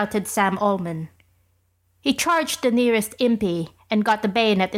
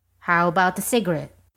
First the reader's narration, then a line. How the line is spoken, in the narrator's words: said